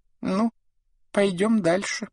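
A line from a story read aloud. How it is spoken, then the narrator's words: Thin squeaky voice. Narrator (Russian): пропищал он тонким голосом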